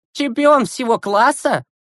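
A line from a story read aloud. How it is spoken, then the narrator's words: Mocking question. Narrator (Russian): насмешливо спросил Игорян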